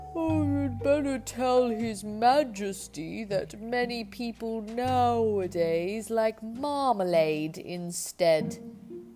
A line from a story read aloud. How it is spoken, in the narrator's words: The cow said sleepily